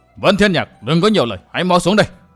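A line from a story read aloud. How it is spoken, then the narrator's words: Roaring. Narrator (Vietnamese): Song Kích Cái Thiên gầm lên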